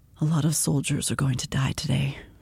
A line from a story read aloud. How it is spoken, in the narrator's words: he said quietly